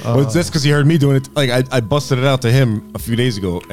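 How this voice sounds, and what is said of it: Usual voice. Nothing is said of it.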